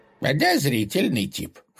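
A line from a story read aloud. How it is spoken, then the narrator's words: Skeptical snort. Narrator (Russian): хмыкнул Тихон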